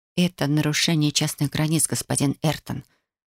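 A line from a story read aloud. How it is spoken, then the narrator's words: Quiet. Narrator (Russian): произнесла тихо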